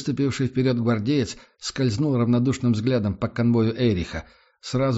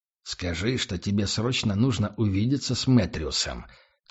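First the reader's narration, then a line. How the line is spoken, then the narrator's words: Quiet. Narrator (Russian): тихо произнес Эрих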